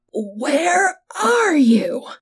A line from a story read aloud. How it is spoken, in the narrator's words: the man howled, breathing heavily